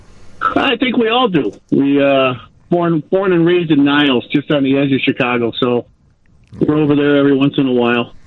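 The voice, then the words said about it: Chicago accent, long A. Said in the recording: “You feel like you have a Chicago accent? ... You can hear the long A in Chicago.”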